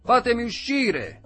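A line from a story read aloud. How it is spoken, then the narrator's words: Screaming. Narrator (Italian): urlava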